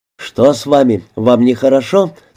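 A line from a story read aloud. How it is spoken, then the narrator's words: Plain. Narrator (Russian): спросил он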